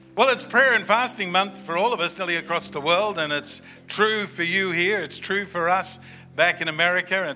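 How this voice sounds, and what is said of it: Non-American English accent. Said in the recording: “I don't have the right accent ... when I say it in America, they hear the word potty ... because of my accent”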